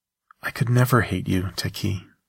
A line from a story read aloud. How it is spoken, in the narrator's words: I said softly